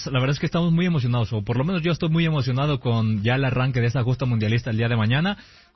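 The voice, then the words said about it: Announcer-like broadcaster voice. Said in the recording (Spanish): “con esa voz ... Tiene voz de locutor.”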